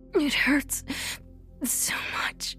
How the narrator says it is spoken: she cried weakly

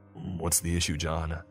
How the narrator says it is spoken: He grunts

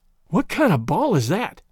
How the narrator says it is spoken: panted Tom

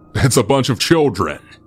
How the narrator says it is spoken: They all just laughed and said

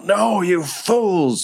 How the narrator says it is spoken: from behind them, you hear Grime Bottom yell

